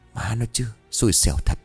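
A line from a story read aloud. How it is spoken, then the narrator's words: Muttering through clenched teeth. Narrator (Vietnamese): Hùng nghiến răng lẩm bẩm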